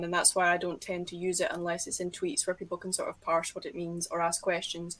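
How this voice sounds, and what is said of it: Scottish accent. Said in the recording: “If I'm speaking Scottish Standard English, however, I often do have to soften my accent and make it more Anglo-centric, because there are things that I say in my accent”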